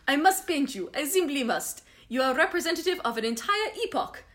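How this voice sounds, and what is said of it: Attempted German accent sounding French. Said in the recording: “I'm going to do a little German accent, but it's probably going to end up French. No, it's going to come out straight French. I tried to even think German and I couldn't do it. ... it's just going to be straight French.”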